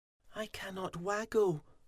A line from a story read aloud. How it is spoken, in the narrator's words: poor Fuzzy moaned